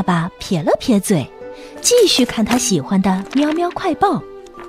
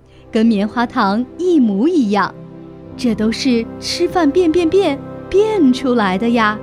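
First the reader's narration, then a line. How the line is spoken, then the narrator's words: Satisfied, mysterious smile. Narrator (Chinese): 猫妈妈满意地露出一个神秘的微笑说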